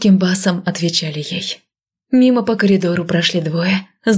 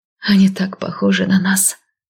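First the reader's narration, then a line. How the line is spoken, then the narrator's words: Very quiet remark. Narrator (Russian): очень тихо заметила Миранда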